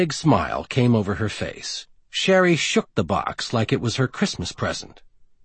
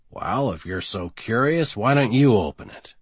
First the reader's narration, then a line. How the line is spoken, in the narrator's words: said in a bored tone